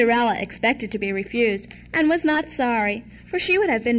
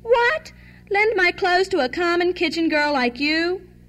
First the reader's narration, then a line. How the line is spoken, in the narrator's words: Miss Charlotte cried